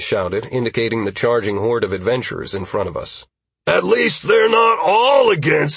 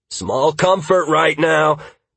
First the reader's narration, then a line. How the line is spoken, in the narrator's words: Halcyon exclaimed